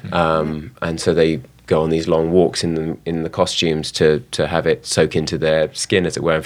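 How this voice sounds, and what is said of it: Neutral London accent. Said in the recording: “my own sort of quite neutral London accent”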